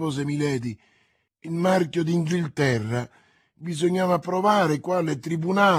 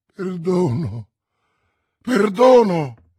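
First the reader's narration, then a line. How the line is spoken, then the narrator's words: Exclamation. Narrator (Italian): esclamò Felton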